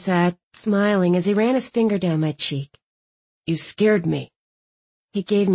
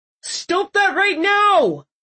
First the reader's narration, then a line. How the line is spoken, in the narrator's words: Reginald howled